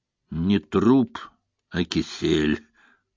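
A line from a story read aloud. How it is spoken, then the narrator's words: Hoarse wheeze. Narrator (Russian): прохрипел коронер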